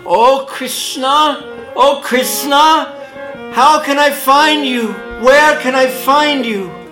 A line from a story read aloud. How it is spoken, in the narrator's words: he continuously called out